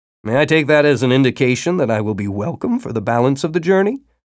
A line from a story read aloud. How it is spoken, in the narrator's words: Tibor chuckled